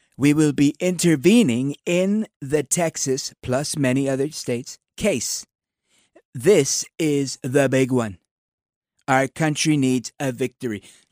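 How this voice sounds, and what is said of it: Impression of President Trump. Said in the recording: “do it in my president voice”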